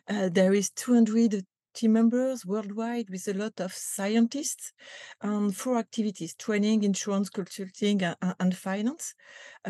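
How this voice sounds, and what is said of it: French accent. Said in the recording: “This is a French company. You can recognize that with my accent, I guess.”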